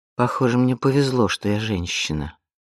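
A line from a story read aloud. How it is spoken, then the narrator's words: Muttering. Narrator (Russian): пробормотала Изабель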